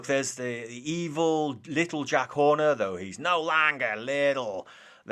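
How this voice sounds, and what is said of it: Poor imitation of Jack Horner's voice. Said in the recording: “my pathetic attempt at doing his voice”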